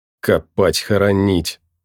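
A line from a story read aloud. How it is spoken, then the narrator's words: Angry, through teeth. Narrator (Russian): зло процедил сержант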